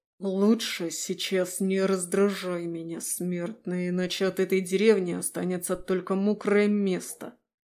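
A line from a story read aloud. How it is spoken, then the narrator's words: Hissed through teeth. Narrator (Russian): сквозь зубы процедил демон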